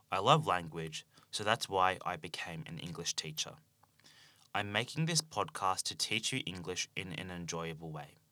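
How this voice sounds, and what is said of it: Australian English accent. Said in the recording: “I speak Australian English.”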